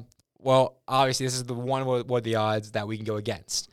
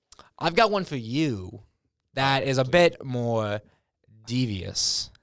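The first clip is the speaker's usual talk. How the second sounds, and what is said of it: Radio announcer voice. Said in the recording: “in my radio voice.”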